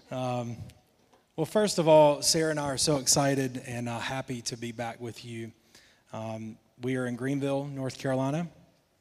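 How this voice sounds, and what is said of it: Thick Southern American accent. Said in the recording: “My accent's probably gotten a little thicker. ... I'm in the South”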